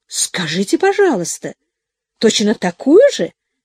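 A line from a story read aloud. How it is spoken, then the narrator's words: Exclaimed. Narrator (Russian): воскликнула мадам Жозен, сама не понимая, к чему она это говорит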